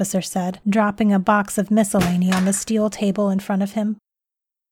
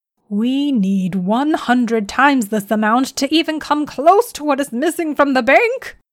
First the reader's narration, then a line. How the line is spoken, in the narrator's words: Athelard screeched in anger